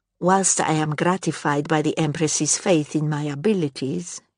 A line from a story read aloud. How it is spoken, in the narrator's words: she said smoothly